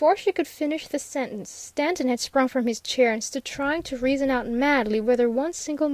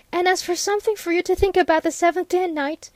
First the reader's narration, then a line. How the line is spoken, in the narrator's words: gasped hurriedly